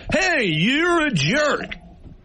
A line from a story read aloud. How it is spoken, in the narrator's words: if I yell at you